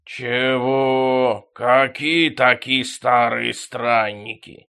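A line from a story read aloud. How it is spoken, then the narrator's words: Real growling. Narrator (Russian): Взаправду зарычал Шормик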